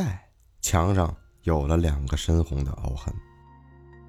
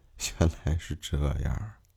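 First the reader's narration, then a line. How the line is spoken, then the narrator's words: Smiling. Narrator (Chinese): 男人笑着说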